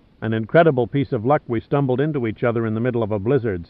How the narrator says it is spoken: said Pitt

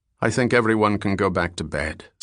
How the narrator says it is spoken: said Bell

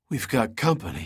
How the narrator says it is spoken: wheezed, his voice sounding like steel wool on sandpaper

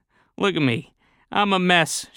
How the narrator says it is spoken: half laughed

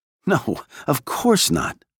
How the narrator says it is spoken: said with a laugh

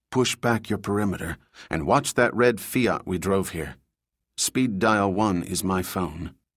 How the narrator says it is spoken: He whispered

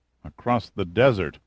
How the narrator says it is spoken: Giordino mumbled

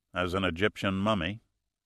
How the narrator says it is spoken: Pitt said coldly

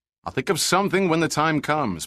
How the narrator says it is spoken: Pitt shouted back

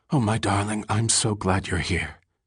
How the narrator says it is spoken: she whispered

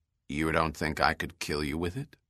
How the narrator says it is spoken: Bell said

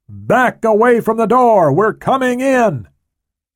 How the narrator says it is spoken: he shouted at the door

